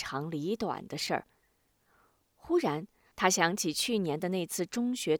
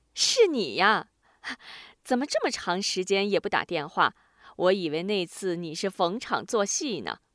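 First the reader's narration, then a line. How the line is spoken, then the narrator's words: Laughing. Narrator (Chinese): 对方笑了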